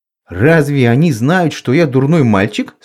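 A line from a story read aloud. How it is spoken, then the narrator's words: Plain. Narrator (Russian): спросил я ее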